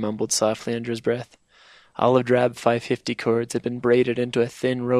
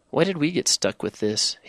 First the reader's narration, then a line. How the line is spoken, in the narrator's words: whined, his voice becoming thin and reedy, betraying the fact that he was shaken by what he saw